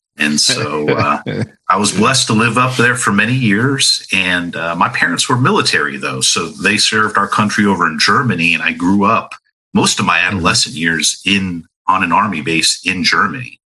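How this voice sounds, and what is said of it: Mixed New York and Southern accent. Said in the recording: “accent, I got everything. I got some New York, New Jersey. I got some Southern Tennessee drawl, and even people say I got some Midwest”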